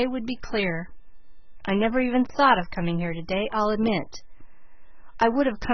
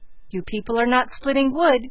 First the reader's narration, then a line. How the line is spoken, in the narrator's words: cried Elnora